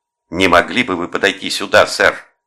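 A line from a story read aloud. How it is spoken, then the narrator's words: Barked cop-style command. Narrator (Russian): рявкнула Дебора в настоящей технике копа-ветерана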